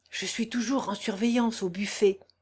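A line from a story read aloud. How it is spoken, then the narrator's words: Low voice. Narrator (French): lui dit-il à voix basse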